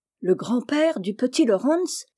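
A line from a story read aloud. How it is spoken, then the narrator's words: Exclaiming. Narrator (French): s'écria Meg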